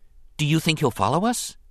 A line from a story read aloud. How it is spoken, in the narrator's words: Anakin asked quickly